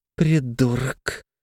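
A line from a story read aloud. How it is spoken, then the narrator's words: Very quiet speech. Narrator (Russian): сказала очень тихо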